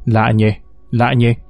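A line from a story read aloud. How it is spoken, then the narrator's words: Muttering. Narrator (Vietnamese): cứ lẩm bẩm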